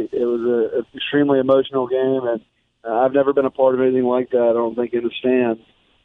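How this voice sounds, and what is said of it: Slightly hoarse, worn voice. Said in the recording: “my voice is a little bit tarnished”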